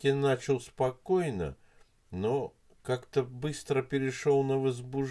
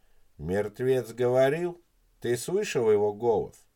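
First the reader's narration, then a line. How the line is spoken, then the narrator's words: Plain. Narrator (Russian): спросил Елисеев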